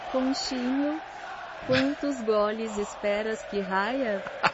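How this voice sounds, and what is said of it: Put-on Portuguese-Spanish (portuñol) accent. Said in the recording (Spanish): “Me encantó el acento portugués, sí. de ... Estuvo perfecto ese acento de portuñol.”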